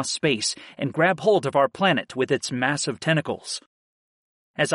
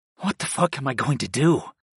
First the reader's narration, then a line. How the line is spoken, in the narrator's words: I whispered